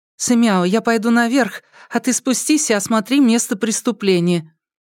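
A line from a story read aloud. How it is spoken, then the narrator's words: Relieved sigh. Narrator (Russian): Вздохнув с облегчением, Тан Сяо Тан сказала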